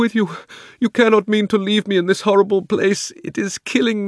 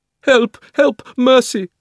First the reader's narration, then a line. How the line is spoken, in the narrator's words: cried the witch in a faint voice